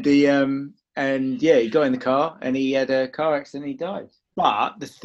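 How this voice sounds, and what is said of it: Usual voice. Nothing is said of it.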